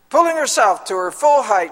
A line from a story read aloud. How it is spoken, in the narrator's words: she said in a strong, authoritative voice